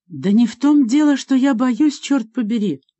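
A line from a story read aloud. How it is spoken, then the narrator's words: Shouting. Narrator (Russian): закричала на него Адриана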